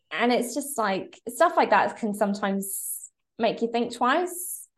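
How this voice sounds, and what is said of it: English accent. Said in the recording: “he heard my accent ... I would come from an Irish Catholic family with an English accent.”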